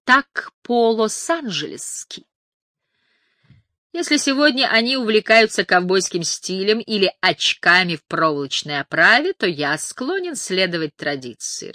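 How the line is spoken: Laughing. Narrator (Russian): рассмеялся Нейл

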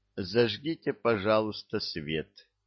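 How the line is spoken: Quiet request. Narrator (Russian): тихо попросил

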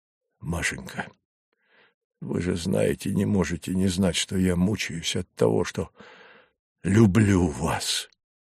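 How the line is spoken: Breathless. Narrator (Russian): выдохнул он

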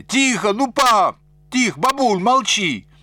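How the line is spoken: Overlapping shouts. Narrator (Russian): наперебой кричали

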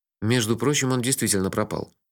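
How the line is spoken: Grumble. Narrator (Russian): буркнул я, машинально отправляя в рот очередное изделие благословенной мадам Жиженды

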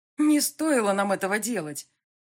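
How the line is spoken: Desperate exclamation. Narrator (Russian): Воскликнула я в отчаянии

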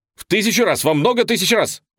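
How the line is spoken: Theatrical shout. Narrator (Russian): выкрикнул Гиберн театральным жестом

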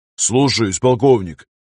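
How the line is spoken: Barking shout. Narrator (Russian): рявкнул он

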